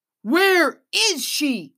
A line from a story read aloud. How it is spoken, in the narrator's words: yelled